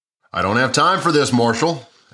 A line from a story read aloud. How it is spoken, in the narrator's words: anxiously replied Frank